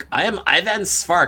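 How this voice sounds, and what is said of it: Put-on Czech accent. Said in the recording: “He had this Czech Republic accent. It was hysterical.”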